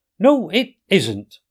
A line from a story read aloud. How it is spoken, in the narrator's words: cried the Rat indignantly